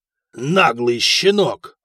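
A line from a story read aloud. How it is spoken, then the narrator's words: Growl. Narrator (Russian): рыкнул Феодор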